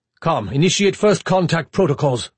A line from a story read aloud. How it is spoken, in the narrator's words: Braun snapped